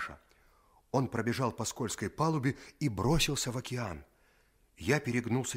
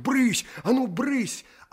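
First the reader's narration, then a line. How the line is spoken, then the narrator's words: Boy shooing, shouting. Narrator (Russian): паренек кричал на них, как на кошек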